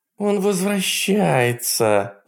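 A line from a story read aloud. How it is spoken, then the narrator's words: Moaning. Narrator (Russian): застонала Тайлер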